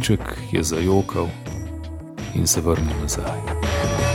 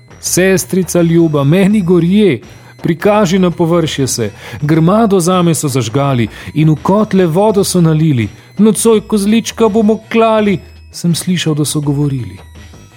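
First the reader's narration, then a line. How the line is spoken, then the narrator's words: Desperate screaming. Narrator (Slovenian): Kozliček v obupu kričal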